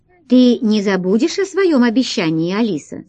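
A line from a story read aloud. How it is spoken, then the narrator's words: Plain. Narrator (Russian): спросила королева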